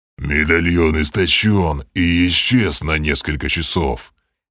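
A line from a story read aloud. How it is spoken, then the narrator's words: Growling voice. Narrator (Russian): рычащим голосом пояснил Грим, продолжая трансформацию в чудовищного оборотня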